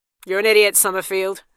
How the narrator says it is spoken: said Obaye

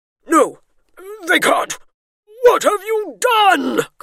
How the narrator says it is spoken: Colin shrieked

